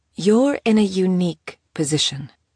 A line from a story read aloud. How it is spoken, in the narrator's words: Teek finally spoke again, her tone careful